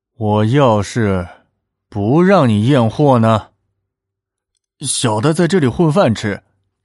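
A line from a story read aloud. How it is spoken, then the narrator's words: Through gritted teeth. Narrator (Chinese): 只好强忍着，咬牙说道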